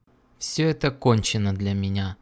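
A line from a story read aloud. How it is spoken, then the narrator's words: Gloomy, to himself. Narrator (Russian): мрачно сказал он себе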